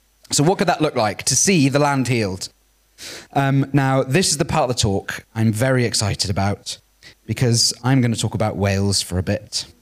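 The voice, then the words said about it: Posh English accent. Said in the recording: “I sound like a posh English boy when I speak English ... I don't sound Welsh”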